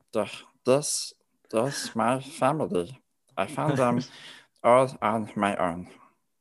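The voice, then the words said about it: Cartoon alien character voice. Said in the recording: “I do a good Stitch voice. I do a really good Stitch, like from Lilo and Stitch.”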